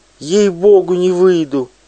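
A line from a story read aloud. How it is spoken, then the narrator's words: Shrieked. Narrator (Russian): взвизгнула Пелагея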